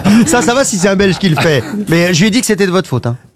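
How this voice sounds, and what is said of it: Badly faked Brussels Belgian accent. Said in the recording (French): “prendre cet accent ... il le fait, trop mal ... c'est l'accent belge, c'est l'accent bruxellois”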